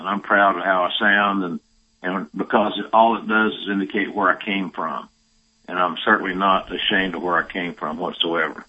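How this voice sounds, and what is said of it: Southern accent. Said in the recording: “my Southern accent, but I'm not ashamed of my Southern accent.”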